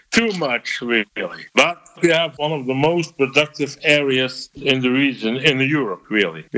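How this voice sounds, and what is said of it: Belgian accent, good English. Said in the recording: “a farmer from eastern Belgium ... While he definitely has an accent, I'm pretty impressed with how good his English is.”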